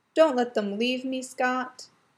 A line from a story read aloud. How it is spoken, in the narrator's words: groans, trying not to throw up